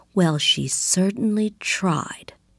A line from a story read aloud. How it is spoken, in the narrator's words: And the mother whispered back